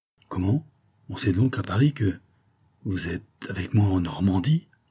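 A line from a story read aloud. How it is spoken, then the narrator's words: Stammering. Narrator (French): Saphir se borna à balbutier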